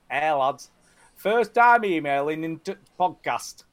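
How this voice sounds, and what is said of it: Put-on accent reading aloud. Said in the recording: “The accent that I chose.”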